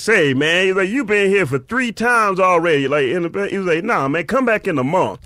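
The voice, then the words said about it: Imitates another person's voice. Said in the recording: “your voice does not sound anything like a man named Brother Woods. No, it sounds exactly like a guy named Brother Woods ... that's a great impression of Brother Woods”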